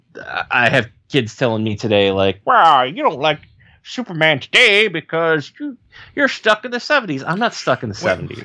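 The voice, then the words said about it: Old man voice. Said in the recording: “I did the old man voice,”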